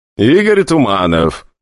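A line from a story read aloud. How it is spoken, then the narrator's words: Even more contemptuous tone. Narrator (Russian): еще более пренебрежительным тоном проговорил посетитель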